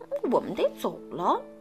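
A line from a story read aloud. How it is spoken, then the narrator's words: Grumbling mutter. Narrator (Chinese): 旺达一个劲儿的嘟囔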